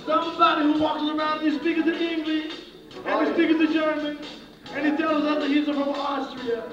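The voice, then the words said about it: Strange Israeli accent. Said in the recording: “You have a very strange Israeli accent.”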